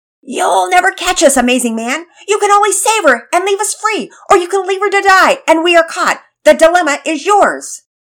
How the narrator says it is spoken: Penelope shouted in her most wicked-sounding voice

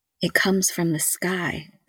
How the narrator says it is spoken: the girl whispered

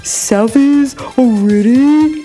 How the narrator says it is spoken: He whined

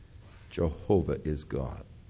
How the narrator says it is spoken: the Jewish mothers would begin to whisper in their ears

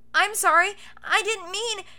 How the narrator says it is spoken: Cowlick Boy sputtered, fearful of repercussion

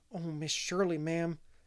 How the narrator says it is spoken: gasped Charlotta

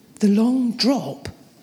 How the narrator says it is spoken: said, my voice wavering

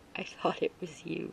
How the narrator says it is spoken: Jaden muttered

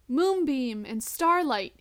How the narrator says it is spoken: he shouts

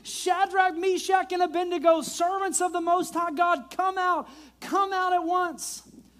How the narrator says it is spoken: Nebuchadnezzar came as close as he could to the door of the flaming furnace and shouted

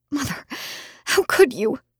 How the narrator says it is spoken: I whimpered

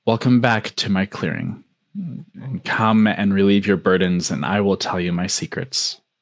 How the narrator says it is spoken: the wind whispered

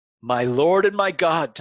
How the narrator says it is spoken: Thomas exclaimed

